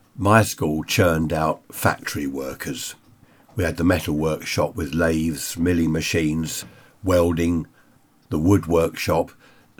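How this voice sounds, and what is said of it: Voice with a slight cold. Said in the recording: “I've got a bit of a cold”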